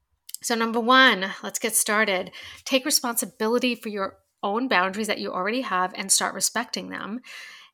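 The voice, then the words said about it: Stuffy, congested, nasal voice. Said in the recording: “I am so stuffed up right now. My allergies are so bad ... I sound so nasally ... I just sound so funny”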